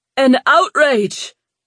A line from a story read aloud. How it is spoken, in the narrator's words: an Argridian behind Brandon shouted